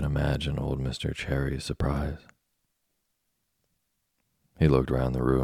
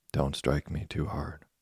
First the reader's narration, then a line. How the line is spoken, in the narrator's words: a very tiny voice begging him gently